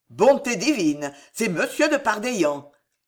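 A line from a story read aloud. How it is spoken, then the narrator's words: Forced joy, sounding gloomy. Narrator (French): s'écria l'ex-moine d'un accent qui voulait être très joyeux et qui n'arrivait qu'à être lugubre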